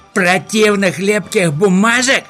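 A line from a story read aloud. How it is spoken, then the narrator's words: Exclaiming. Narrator (Russian): воскликнул Хемуль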